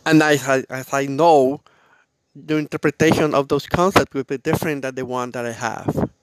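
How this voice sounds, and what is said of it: Non-native English accent. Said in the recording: “The accent of my broken English ... I hope you don't mind of my accent ... I know my English is not the best”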